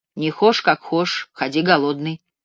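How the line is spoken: Plain. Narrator (Russian): сказал он

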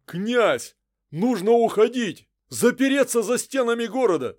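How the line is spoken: Commander shouting. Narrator (Russian): закричал воевода

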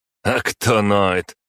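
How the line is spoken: Snorting. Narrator (Russian): хмыкнул Игнат

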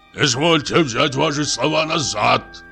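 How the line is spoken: Shouted. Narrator (Russian): крикнул Самойленко

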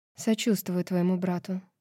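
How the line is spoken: Quiet. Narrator (Russian): тихо сказала она

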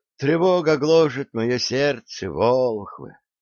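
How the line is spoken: Heavy sigh, monk. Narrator (Russian): тяжело вздохнул монах

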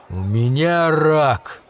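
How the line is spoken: Dull, muffled. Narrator (Russian): глухо сказал он

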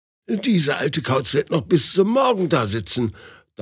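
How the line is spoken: Angry thought. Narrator (German): dachte wütend

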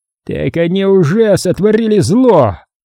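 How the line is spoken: Roar. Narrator (Russian): взревел тот

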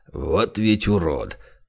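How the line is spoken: Muttering. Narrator (Russian): пробурчал он

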